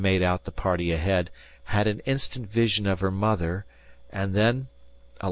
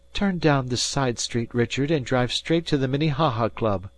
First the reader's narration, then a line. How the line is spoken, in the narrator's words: she cried through the speaking tube